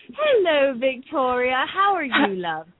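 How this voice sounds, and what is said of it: Put-on British accent. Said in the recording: “Was that your British accent? ... she thought I was quite bad at it. ... it's definitely more British sounding than the last time you attempted it.”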